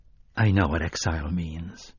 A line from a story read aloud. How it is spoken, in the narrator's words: Roland said softly